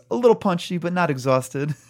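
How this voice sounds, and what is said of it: Bruce Willis impression. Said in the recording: “That's my Bruce Willis impression.”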